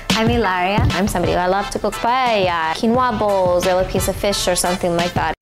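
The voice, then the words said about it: Put-on Spanish accent. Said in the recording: “her fake Spanish accent”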